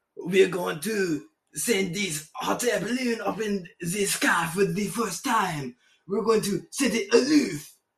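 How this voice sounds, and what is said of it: Put-on French accent. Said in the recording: “I'll just do a French accent”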